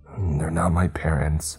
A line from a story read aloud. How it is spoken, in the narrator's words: he choked out